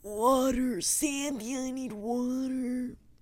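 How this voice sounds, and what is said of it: Bad cartoon character impression. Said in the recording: “You know that scene from SpongeBob? ... That was a really bad impression.”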